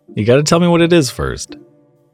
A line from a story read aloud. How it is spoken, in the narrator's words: said, laughing to myself a little bit